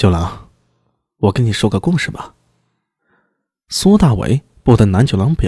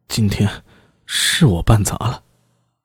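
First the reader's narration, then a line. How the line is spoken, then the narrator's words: Through gritted teeth. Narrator (Chinese): 南九郎咬牙道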